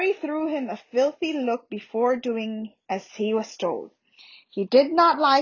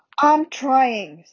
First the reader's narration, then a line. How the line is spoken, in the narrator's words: said Harry angrily